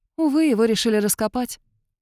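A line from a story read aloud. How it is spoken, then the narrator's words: Sigh. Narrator (Russian): вздохнула Эйлин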